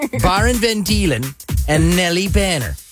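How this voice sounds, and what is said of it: Put-on Dutch accent. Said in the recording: “Is that the Netherlands accent?... That's it, my Dutch accent.”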